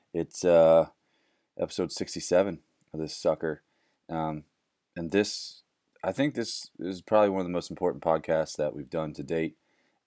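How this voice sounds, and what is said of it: Slightly cracky voice. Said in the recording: “So my voice is a little cracky.”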